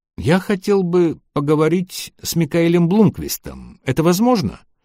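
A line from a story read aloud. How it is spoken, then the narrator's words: Timid voice over phone. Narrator (Russian): Робко спросил незнакомый голос на другом конце провода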